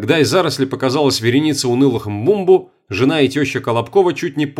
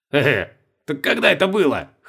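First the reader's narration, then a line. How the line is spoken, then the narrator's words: Short chuckle. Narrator (Russian): хохотнул Колобков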